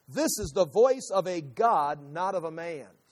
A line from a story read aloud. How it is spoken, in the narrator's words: they shouted